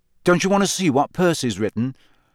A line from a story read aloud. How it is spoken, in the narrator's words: Harry asked her, hastily